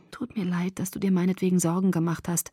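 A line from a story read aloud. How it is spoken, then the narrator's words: Softly spoken. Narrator (German): sagte leise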